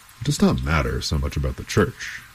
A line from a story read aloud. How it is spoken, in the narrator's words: he said